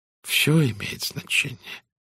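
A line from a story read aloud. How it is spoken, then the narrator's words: Gentle. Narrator (Russian): мягко сказал Пуаро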